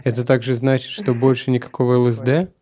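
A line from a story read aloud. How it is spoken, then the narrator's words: Laughing. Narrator (Russian): Шрила Прабхупада засмеялся и сказал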